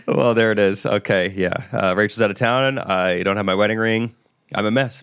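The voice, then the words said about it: Hoarse, strained, nearly lost voice. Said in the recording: “My throat's sore. My voice is gone.”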